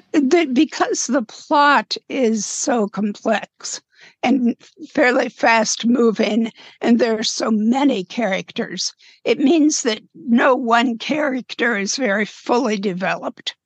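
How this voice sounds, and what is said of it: Strained, failing voice. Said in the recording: “sorry, my voice, I got to losing my voice”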